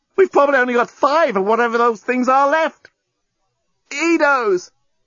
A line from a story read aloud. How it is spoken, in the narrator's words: The journalist tried not to yell out with the pain of his wound